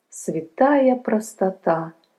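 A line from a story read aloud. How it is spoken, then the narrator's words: Sighing priest. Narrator (Russian): вздохнул священник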